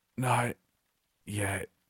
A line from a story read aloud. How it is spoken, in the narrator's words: her voice came out in a strangled hiss